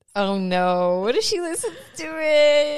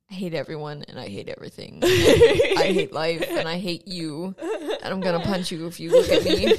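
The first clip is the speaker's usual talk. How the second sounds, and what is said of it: Imitates another person's voice. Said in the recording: “Do Daniel. ... That's Daniel. ... that's our brother.”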